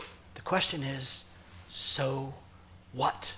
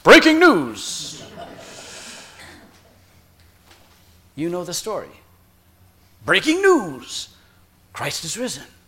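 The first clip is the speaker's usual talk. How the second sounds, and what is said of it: Dramatic news-anchor voice. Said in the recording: “news voice”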